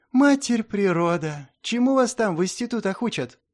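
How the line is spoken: Heavy sigh. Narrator (Russian): Тяжело вздохнул Вьюн

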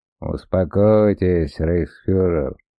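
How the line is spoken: Gentle interruption. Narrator (Russian): мягко перебил профессор Лепке

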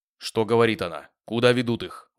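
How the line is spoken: Menacing question. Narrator (Russian): грозно спросил он у одного из опричников

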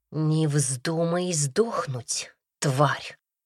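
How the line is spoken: Hissed close in ear. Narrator (Russian): прошипели мне прямо в ухо

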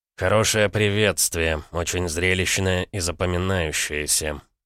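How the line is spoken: Through gritted teeth. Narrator (Russian): сквозь зубы процедил Саша

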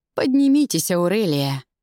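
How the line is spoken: Weary command, emperor. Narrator (Russian): устало приказал император

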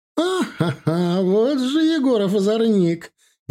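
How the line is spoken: Laughing. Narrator (Russian): Екатерина рассмеялась

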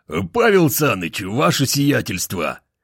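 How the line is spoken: Hoarse sleepy bark. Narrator (Russian): Гаркнул он охрипшим со сна голосом

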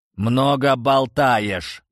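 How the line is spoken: Growling. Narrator (Russian): прорычал Рунис

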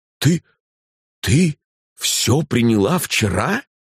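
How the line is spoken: Wild voice. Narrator (Russian): спросил я диким голосом

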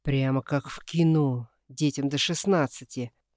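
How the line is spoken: Snorting. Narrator (Russian): хмыкнул Никита

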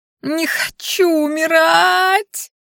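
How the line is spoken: Terrified shriek. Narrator (Russian): завизжала я, зажмуривая глаза в ожидании удара

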